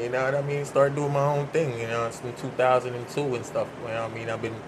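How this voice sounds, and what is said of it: Strong Jamaican accent. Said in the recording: “my accent and everything is like this so strong. Because since Jamaican days”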